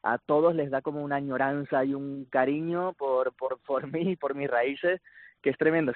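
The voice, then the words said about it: Canary Islands Spanish accent. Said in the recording (Spanish): “me ha acercado más el acento canario”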